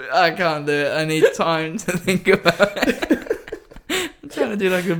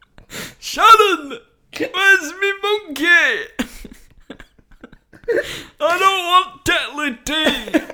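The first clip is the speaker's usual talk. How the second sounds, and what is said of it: Shouted Brummy-accent impression. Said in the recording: “Brummy ... To do Ozzy Osbourne, you just have to shout Sharon”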